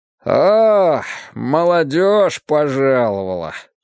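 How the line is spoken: Slightly drunken drawl. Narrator (Russian): чуть пьяно протянул отец

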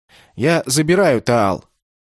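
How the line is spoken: Loud. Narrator (Russian): Громко сказал

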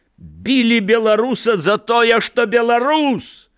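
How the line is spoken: Shout. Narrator (Belarusian): Крыкнуў

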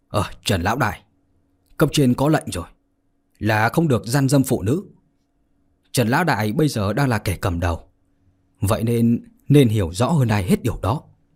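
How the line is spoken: Cold young man. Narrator (Vietnamese): một tên quan binh trẻ tuổi lạnh lùng mà nói

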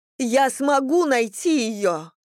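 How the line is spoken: Shout. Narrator (Russian): закричала она

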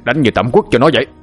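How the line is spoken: Angry shout. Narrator (Vietnamese): Quang lửa tức giận quát lên

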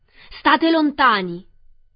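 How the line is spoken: Rough voice shouting. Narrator (Italian): udirono una voce rozza gridare

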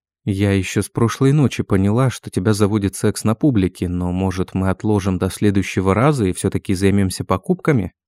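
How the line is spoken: Plain. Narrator (Russian): спросила я

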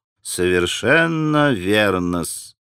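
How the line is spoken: Quiet, reasoned. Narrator (Russian): тихо и рассудительно проговорил Смердяков

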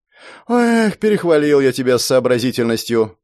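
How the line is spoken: Sighing. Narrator (Russian): вздохнул особист

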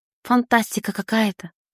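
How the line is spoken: Bewildered breath. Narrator (Russian): выдохнула я в растерянности

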